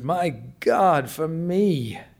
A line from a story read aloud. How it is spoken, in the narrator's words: the old man murmured